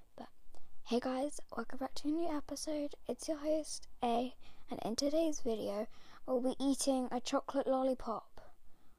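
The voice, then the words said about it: Soft, low-energy speaking voice. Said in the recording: “I am not whispering, but I'm going to be speaking softly, so it's not as energetic as some of my normal episodes.”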